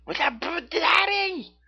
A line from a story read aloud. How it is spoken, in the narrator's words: she screamed with elation